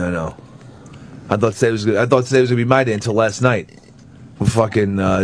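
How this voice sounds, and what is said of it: Usual voice. Nothing is said of it.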